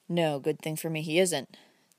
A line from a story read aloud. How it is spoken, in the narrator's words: the young man answered bitterly, ... voice betraying his feelings